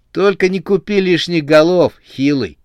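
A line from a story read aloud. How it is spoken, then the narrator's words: Plain. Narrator (Russian): сказал Рамзес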